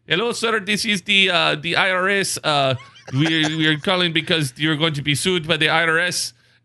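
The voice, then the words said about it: Poor put-on Indian accent. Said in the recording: “my horrible country of India accent, as opposed to my Indian accent ... Sounds Brazilian.”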